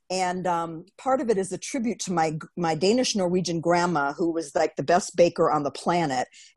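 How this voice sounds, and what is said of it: Nasal Wisconsin accent. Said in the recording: “you can still hear that accent, Wisconsin. I still have that nasal accent.”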